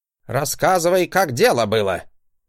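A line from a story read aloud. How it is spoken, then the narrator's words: Furious bark. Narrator (Russian): Гаркнул он, втягивая раздувшимися в гневе ноздрями воздух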